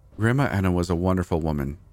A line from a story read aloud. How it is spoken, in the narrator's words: said